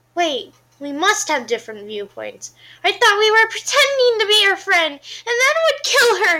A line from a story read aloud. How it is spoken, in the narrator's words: Charlotte says loudly